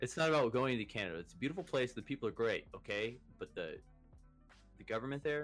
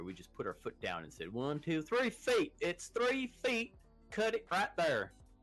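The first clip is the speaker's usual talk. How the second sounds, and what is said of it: Put-on hillbilly accent. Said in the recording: “with a Texas accent ... That was a hillbilly accent.”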